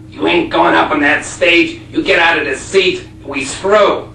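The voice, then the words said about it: Put-on Buffalo, New York accent. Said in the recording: “I don't know if I can do the accent, a Buffalo, New York accent,”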